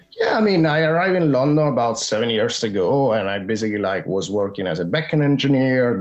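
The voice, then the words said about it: Slight Italian accent. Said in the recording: “I'm originally from Rome in Italy. ... I can tell the accent there a little bit”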